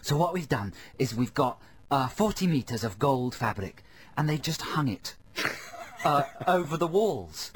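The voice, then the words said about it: Terrible put-on accent. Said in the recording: “this terrible accent I'm doing, I know”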